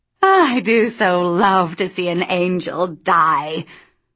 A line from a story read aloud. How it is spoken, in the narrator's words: She cackled